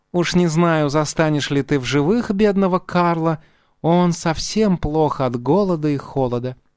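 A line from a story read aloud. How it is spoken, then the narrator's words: Sweet, sighing fox. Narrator (Russian): Лиса вздохнула еще умильнее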